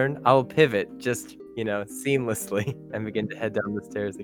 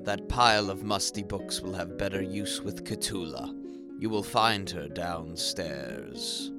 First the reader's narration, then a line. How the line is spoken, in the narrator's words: sighs and says